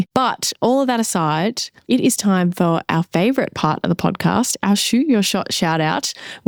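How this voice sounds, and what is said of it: Slightly nasal, sick voice. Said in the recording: “I kind of got a little bit sick ... apologize for my voice. I feel like I still sound a little bit nasally.”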